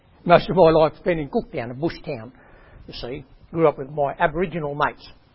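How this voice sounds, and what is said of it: Rural far north Queensland Australian accent. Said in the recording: “I grew up in far north Queensland... you've got a funny accent... Sound different than the person that grew up in Melbourne”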